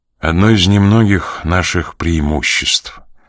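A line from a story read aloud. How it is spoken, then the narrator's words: Sad. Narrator (Russian): грустно проговорил он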